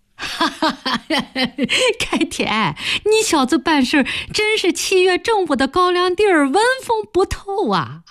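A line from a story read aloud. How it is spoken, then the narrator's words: Woman laughing. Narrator (Chinese): 詹大同的女人笑着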